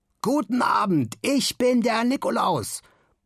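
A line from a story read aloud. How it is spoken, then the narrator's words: Confident triumphant bellow. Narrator (German): brüllt Simon siegessicher in die Runde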